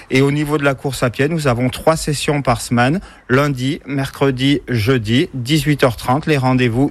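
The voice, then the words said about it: French accent from the Cantal. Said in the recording (French): “Et vous avez un bel accent qui nous vient. ... Du Cantal.”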